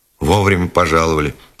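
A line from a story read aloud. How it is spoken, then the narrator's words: Stocky god grumbling. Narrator (Russian): проворчал коренастый бог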